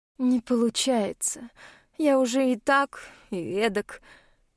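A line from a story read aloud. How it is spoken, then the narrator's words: Sad, resigned reply. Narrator (Russian): печально произносит в ответ, явно сдавшись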